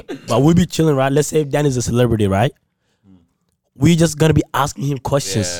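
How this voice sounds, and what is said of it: Hoarse, strained voice. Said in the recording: “My voice is gone, bro.”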